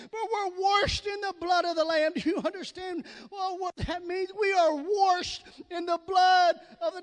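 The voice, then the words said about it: Southern US accent. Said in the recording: “that's my southern accent.”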